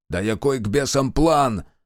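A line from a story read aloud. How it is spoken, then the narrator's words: Snapping retort. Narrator (Russian): огрызнулся Демьян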